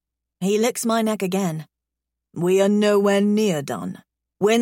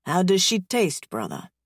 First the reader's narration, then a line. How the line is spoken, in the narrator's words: Ryder murmurs